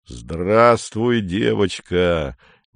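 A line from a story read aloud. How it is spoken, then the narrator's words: Gentle rumble. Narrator (Russian): нежно пророкотал Рудак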